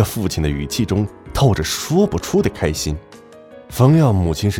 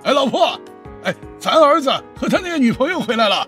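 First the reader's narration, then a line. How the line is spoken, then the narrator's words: Father calling out hurriedly. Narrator (Chinese): 冯耀父亲赶紧让两人进屋，一边冲着冯耀母亲喊道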